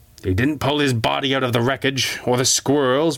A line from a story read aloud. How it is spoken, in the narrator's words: Malcolm growled